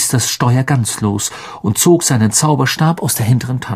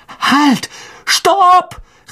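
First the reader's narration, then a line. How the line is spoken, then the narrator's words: Shouting. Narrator (German): rief er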